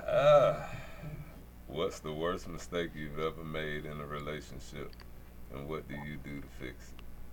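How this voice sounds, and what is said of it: Low sultry bedroom voice. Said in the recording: “he got that oh. bedroom voice on”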